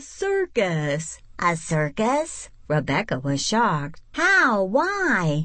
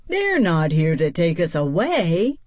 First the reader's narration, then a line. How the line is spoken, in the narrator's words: Mouse laughed